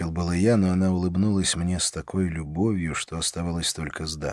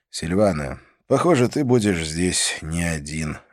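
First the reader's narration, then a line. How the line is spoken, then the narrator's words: Sighing, concluding. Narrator (Russian): закончил я, вздохнув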